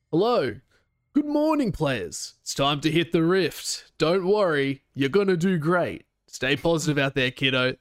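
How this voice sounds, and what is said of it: Imitates another person's voice, upbeat. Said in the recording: “my best Hysterics impersonation ... That wasn't a great impersonation ... I could definitely feel like a bit of him in that ... he is very positive. He brings a lot of energy”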